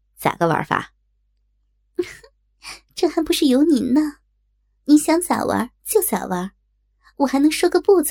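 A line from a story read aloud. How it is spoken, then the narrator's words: Happy, laughing. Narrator (Chinese): 刘科很高兴，笑着说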